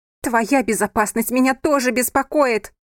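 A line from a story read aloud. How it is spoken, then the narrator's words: Shouted. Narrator (Russian): крикнула она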